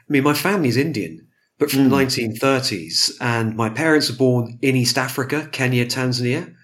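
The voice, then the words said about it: British accent. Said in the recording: “you can tell from my accent that that's kind of the outcome is off I go to university in the UK”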